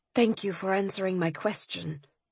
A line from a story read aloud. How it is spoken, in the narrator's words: I said in a steady voice